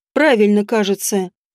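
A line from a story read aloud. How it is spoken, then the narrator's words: Calm confirmation. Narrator (Russian): спокойно подтвердил он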